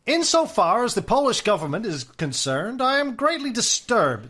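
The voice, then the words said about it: Put-on 1920s American aristocrat accent. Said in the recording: “my 1920s American aristocrat accent. F. Scott Fitzgerald accent with a bit of Markham thrown in”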